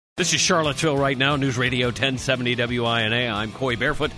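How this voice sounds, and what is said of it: Put-on radio announcer voice. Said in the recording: “this is my radio voice. ... You're like that homeless guy. you're totally that homeless guy.”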